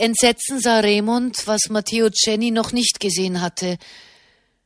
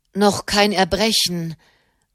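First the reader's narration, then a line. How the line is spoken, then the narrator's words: Murmured. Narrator (German): murmelte Marchesano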